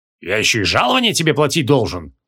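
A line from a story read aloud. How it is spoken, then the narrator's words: Angry grumbling. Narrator (Russian): сердито проворчал Креол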